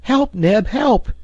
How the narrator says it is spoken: he cried

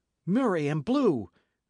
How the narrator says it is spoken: cried Dick

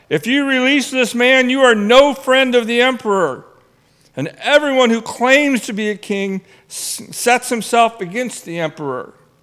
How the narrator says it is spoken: the Jews cried out

